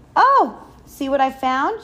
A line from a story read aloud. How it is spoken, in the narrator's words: she exclaimed